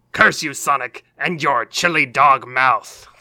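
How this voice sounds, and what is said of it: Villain character impression voice. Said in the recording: “don't we all have to do Eggman and Bowser impressions”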